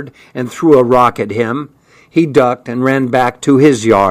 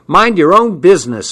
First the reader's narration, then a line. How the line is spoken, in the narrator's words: I yelled